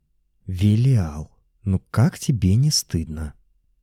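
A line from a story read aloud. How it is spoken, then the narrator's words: Sweet whisper. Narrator (Russian): сладким голосом прошептала Наташа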